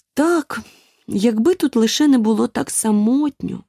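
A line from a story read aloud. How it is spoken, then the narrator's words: Sad sigh. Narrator (Ukrainian): журливо зітхнула Аліса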